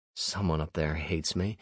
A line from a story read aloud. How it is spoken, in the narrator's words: I mumbled